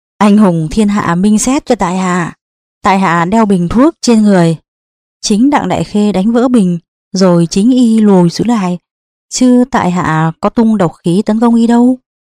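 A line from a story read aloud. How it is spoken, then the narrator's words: Loud laughter. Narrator (Vietnamese): Đỗ Xích Thập cười lớn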